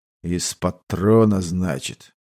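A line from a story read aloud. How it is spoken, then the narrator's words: Thoughtful. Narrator (Russian): задумчиво произнес тот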